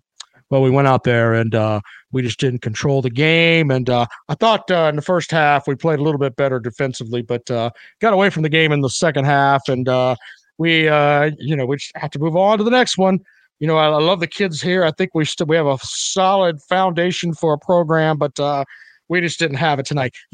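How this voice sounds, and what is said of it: Imitates another person's voice. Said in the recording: “Here's my impression of Brad Brownell.”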